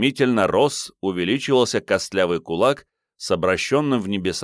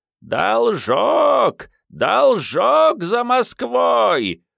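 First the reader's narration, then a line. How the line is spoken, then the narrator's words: Creaking, menacing old sorcerer. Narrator (Russian): проскрипел ужасный колдун-пророк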